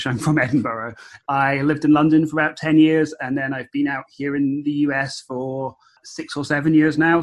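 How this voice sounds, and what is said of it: Scottish accent, somewhat faded. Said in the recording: “By your accent, you're a Scot currently living in Los Angeles.”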